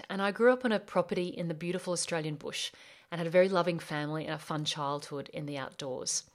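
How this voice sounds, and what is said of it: Australian accent. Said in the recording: “I'm from Australia. Yes, that's my accent.”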